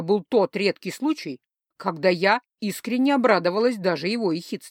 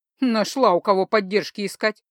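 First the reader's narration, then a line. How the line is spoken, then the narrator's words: Mocking snort. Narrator (Russian): насмешливо фыркнул Кумивар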